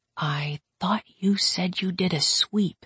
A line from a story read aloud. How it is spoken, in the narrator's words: I said quietly